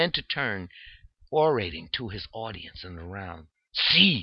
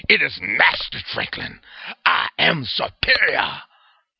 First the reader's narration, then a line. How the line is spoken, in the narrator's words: Harris bellowed